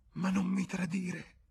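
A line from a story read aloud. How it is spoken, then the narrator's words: Whimpered. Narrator (Italian): piagnucolò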